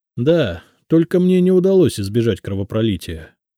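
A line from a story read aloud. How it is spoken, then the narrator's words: Sigh. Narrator (Russian): вздохнул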